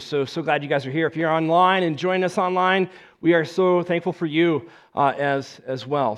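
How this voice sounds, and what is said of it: Voice affected by a cold. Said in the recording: “You might tell from my voice a little bit. I've been fighting the cold”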